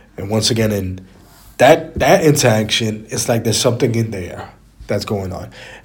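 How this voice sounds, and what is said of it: Stuffy, raspy voice. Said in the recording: “I'm a little bit stuffy. I'm a little bit raspy. ... that raspiness”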